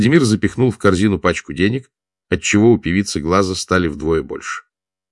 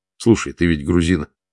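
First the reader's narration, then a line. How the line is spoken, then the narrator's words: Plain. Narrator (Russian): спросил капитан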